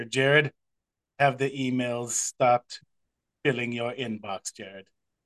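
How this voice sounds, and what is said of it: Deliberately bad Hannibal Lecter impression. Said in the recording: “terrible impression ... in my best possible Hannibal Lecter”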